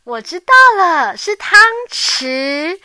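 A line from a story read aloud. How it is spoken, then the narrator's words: Little mouse exclaiming. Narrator (Chinese): 小老鼠大叫一声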